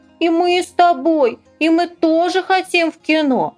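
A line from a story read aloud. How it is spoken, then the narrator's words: Whining and whimpering. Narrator (Russian): они бы сейчас же заныли и захныкали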